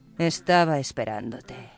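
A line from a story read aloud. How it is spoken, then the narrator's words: Murmured. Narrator (Spanish): murmuró Gedeón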